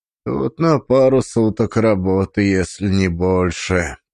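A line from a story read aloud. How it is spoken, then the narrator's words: Grumbled. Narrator (Russian): пробурчал Дзюбов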